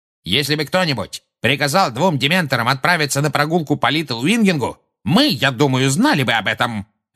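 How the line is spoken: Angry bark. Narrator (Russian): рявкнул Фадж

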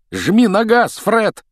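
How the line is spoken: Shouting. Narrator (Russian): крикнул Рон

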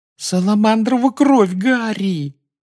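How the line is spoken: Groaning. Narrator (Russian): застонала Гермиона

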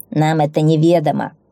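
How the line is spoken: Growled. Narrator (Russian): рыкнул волчий вожак

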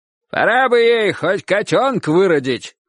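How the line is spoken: Grandfather shouting from porch. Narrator (Russian): крикнул дедушка с веранды

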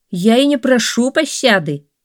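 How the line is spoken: Cheerful reply. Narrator (Russian): весело ответил Хасан

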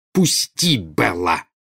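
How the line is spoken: Woman's angry growl. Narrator (Russian): прорычала Нарцисса

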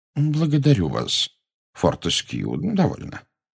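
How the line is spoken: Gentle rebuke. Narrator (Russian): мягко осадил его Дамблдор

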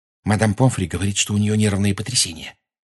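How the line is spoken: Whisper. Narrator (Russian): шепнула Гермиона

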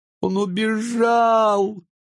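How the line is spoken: Tearful. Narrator (Russian): говорила она сквозь слезы

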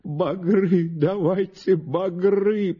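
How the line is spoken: Groaning old man. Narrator (Russian): простонал старик ему в ответ

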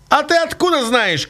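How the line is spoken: Shout. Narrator (Russian): крикнул ему Цугуля

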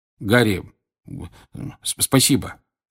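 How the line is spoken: Mumbling. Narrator (Russian): бормотал Джордж

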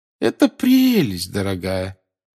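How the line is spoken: Forced cheerful voice. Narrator (Russian): сказала бабушка Невилл наигранно веселым голосом

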